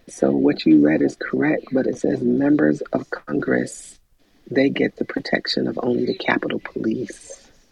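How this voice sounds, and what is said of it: Whispering. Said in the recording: “why am I whispering to you, Dre? ... Because I'm whispering because I'm at my desk”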